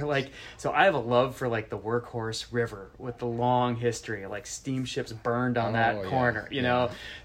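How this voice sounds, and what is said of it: Upper Midwest American accent. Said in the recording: “you probably hear it in my voice, but I'm from Minnesota, Wisconsin”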